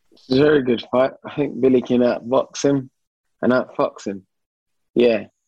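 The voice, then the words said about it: East End London accent. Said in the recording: “That's my East End accent.”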